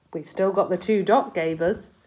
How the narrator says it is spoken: he said

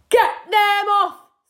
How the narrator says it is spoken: screamed Mr

